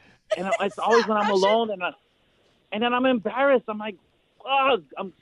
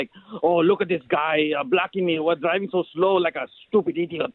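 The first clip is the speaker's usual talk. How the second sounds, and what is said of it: Bad old Russian man accent. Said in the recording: “speaking in a Russian old dude bad accent”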